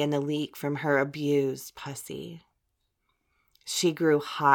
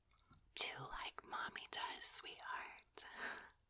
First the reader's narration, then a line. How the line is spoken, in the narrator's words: whispered